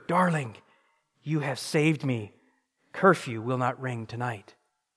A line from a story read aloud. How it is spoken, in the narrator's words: whispered